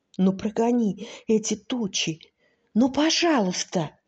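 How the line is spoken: Whispered plea. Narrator (Russian): Сережа шепотом спросил

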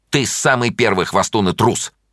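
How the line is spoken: Angry. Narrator (Russian): сердито сказала Таня

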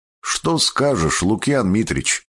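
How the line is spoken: Plain. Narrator (Russian): спросил я

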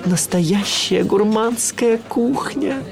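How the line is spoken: Breathless exhale. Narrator (Russian): выдохнул я

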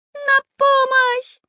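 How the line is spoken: Shouting at top of voice. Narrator (Russian): кричал во все горло карандаш

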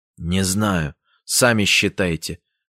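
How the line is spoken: Curt mutter. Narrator (Russian): буркнул Сеня

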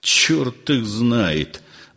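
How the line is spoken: Muttering. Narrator (Russian): бормотал Александр Семенович

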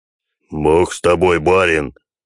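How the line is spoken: Grumbling. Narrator (Russian): проворчал Клим

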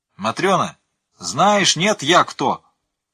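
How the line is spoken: Loud shout. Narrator (Russian): прокричал Микша

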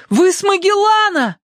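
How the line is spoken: Boy's breathless shout. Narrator (Russian): Чувствуя, как замирает сердце, мальчик крикнул

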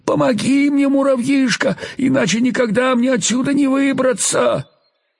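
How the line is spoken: Frightened plaintive pleading. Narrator (Russian): Паук был очень испуган и продолжал умолять жалобным голосом

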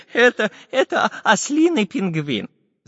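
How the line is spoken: Laughing, professor's voice. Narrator (Russian): засмеялся профессор Пыхтелкин

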